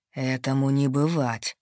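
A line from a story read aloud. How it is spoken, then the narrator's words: Low hoarse quiet fury. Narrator (Russian): голос Ардена, низкий и хриплый, полный тихого бешенства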